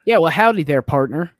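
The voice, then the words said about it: Mock Texan drawl. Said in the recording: “You make fun of my accent? ... I come from the great state of Texas”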